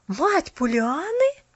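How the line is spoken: Surprised unison exclamation. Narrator (Russian): В один голос воскликнули удивленные Керю

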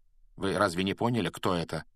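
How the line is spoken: Calm question. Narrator (Russian): спокойно спросил Флоренс

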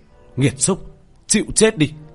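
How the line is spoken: Loud shout. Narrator (Vietnamese): Tiểu thất hét lớn

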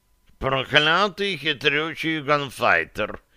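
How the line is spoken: Wheezing. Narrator (Russian): прохрипел кот да Винчи

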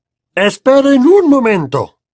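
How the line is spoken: Bellow. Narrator (Spanish): bramó

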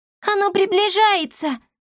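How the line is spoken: Shouted. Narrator (Russian): крикнула Мила

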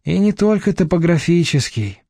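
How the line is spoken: Silent inner sigh. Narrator (Russian): мысленно вздохнула Надежда

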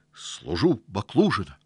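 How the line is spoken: Blushing, forced out. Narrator (Russian): зардевшись, выдавил Сашок

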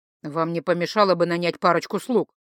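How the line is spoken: Displeased mutter. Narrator (Russian): недовольно буркнул тот

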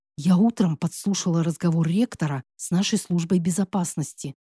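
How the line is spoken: Anxious whisper. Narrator (Russian): прошептала, явно переживая, как бы ее не услышали

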